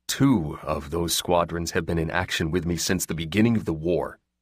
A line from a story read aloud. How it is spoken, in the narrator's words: he said quietly